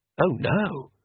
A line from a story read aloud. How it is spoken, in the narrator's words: whispered Oates